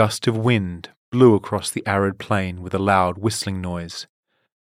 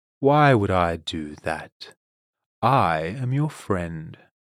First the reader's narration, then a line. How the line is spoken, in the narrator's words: Silktongue said